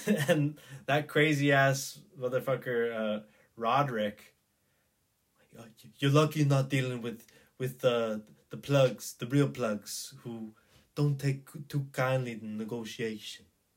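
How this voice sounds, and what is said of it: Terrible put-on Cuban accent. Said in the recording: “It's a terrible Cuban accent. It's a terrible Cuban accent.”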